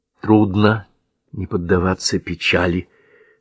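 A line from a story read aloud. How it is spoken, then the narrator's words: Soft, almost confessional. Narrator (Russian): соглашается она, и голос у нее звучит так мягко, словно это едва ли не признание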